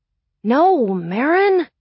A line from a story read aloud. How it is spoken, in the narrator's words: groaned, getting annoyed